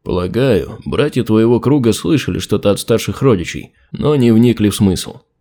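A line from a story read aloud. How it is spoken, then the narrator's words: Plain. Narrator (Russian): ответил Харальд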